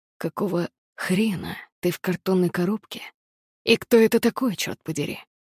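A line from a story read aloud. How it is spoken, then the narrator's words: Hoarse rasp. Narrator (Russian): прохрипел Харон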